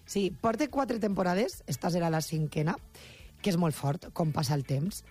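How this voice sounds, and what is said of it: Valencian Catalan accent. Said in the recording (Catalan): “volem que continues mantenint el teu accent, la teua llengua, la teua parla ... la valenciana”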